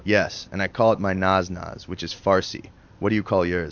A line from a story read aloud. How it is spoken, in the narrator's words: says Susan